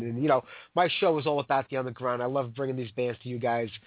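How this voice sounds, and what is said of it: Sick, congested-sounding voice. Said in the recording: “I've been sick for like 3 months now. I can't get rid of this cold.”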